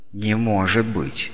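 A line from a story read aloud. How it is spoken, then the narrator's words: Quiet. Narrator (Russian): тихо проговорил Ромашин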